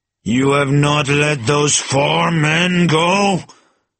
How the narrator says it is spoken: thundered Chauvelin menacingly

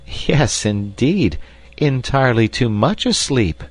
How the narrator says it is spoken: laughed Hilda

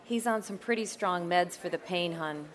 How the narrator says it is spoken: she said

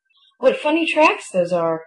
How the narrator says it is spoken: exclaimed

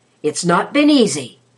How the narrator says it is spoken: exclaimed

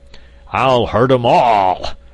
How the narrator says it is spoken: roared the angry metal monarch

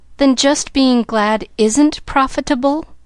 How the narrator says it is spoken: questioned Pollyanna, a little anxiously

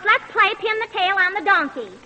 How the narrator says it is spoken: Pa hollers

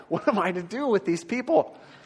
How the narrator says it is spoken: Moses cried out to the Lord

